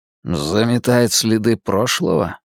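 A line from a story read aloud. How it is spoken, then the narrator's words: Muttered. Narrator (Russian): пробормотал Дерек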